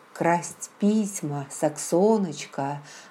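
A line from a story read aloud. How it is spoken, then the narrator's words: Calm answer. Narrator (Russian): спокойно ответил Джейми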